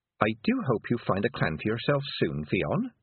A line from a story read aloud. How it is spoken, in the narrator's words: said Tiffany sweetly